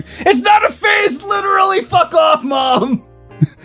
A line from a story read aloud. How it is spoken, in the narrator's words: Kylo heard this upstairs and screamed